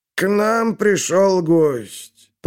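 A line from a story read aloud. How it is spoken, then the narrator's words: Creaky old man's voice. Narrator (Russian): проскрипел старик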